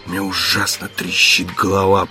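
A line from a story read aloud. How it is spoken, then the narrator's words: Hoarse rasp. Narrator (Russian): прохрипел Текс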